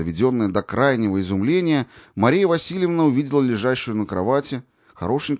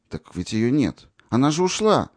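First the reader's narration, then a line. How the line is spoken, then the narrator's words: Timid objection. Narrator (Russian): робким голосом возразила Мария Васильевна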